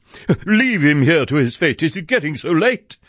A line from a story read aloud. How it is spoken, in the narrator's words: exclaimed in a fright